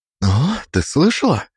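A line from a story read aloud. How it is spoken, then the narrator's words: Indignant whisper. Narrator (Russian): возмущенно прошептала она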